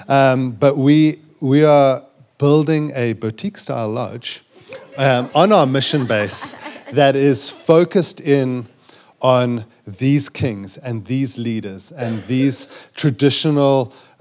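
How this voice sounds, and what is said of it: South African accent. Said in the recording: “my South African accent.”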